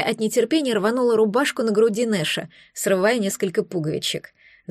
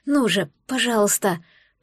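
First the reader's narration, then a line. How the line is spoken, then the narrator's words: Pleading whisper. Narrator (Russian): прошептала капитану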